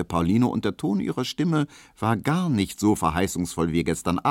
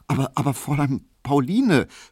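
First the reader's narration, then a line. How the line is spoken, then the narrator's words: Guilty stammer. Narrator (German): stotterte Emil Kubinke, und er hatte ein sehr böses Gewissen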